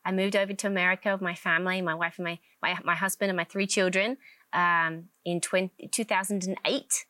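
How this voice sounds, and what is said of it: English accent. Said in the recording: “I'm from England, obviously. I have a slightly different accent.”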